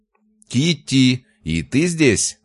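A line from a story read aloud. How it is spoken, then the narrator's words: Shouting. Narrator (Russian): закричал Артем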